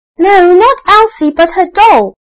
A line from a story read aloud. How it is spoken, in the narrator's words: shouted Archie